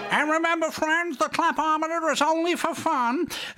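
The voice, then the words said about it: Imitates another person's voice. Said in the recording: “that was my best Huey Green impression.”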